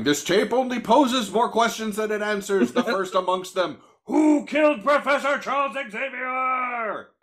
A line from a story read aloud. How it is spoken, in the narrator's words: screaming straight up